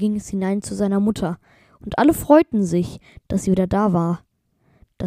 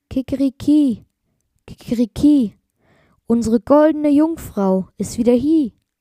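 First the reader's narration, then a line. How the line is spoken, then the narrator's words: Rooster calling out. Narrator (German): der Hahn ... rief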